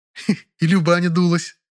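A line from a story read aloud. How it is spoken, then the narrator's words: Giggling. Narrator (Russian): она хихикнула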